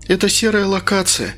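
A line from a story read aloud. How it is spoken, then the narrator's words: Sighing. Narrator (Russian): вздохнула Инга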